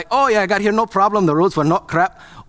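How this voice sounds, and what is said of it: Put-on Scottish accent. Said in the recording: “you have to say it like you're Scottish ... All of my accents eventually verge into Indian.”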